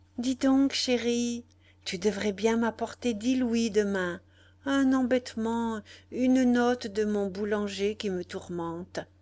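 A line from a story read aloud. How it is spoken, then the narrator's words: Caressing tone. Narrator (French): d'un ton de caresse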